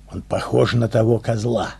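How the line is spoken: Whispered quietly. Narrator (Russian): негромко шепнула Ия

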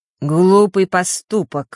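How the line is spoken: Dry, harsh spirit voice. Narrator (Russian): сухим и резким голосом произнес дух Осталы

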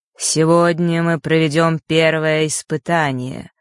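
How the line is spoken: Dull, muffled voice. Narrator (Russian): произнес хозяин замка обычным глухим голосом

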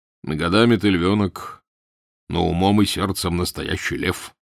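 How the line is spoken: Plain. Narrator (Russian): сказал Данила

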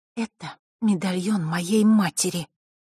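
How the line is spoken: Girl speaking through teeth. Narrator (Russian): процедила девочка

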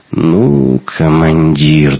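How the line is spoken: Annoyed drawl. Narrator (Russian): досадливо протянул Шибанов

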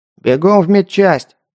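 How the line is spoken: Barked into ear. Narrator (Russian): рявкнула она ему в ухо

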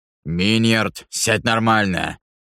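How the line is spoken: Growled. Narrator (Russian): прорычал Ваймак

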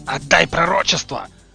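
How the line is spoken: Battered man's bark. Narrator (Russian): рявкнул изрядно помятый Долохов

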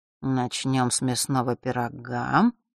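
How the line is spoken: Mutter. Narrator (Russian): пробормотал

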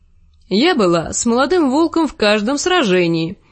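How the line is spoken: Cheerful remark. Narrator (Russian): весело заметила Дейси

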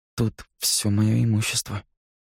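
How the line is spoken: Forced out, strained. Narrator (Russian): наконец выдавил он

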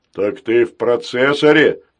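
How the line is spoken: Loud laughter. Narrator (Russian): захохотал Грохотун

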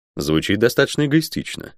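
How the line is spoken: Dry. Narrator (Russian): сухо произнес я

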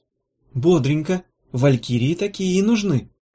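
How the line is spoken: Cheerful. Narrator (Russian): радостно сказала Гелата

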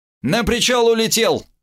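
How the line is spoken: Shout after someone. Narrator (Russian): крикнул вслед радист

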